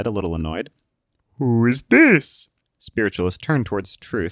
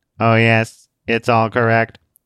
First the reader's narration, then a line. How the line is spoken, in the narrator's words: the young girl said in a robotic voice